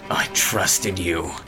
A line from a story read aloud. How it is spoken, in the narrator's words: he spat